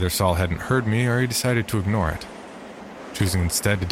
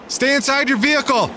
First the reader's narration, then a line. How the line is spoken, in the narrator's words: I screamed